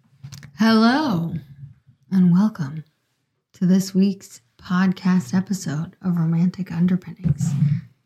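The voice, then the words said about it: NPR radio host voice. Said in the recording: “my NPR voice”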